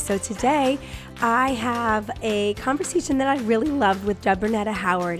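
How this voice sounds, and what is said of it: Strained, failing voice. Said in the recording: “I am losing my voice”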